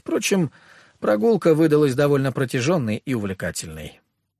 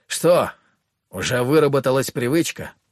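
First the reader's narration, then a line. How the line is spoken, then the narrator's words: Knowing grunt. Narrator (Russian): понимающе хмыкнул Коловрат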